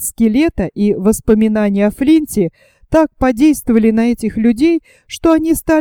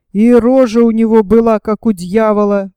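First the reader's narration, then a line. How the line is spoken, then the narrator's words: Shuddering exclamation. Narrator (Russian): воскликнул третий пират, содрогаясь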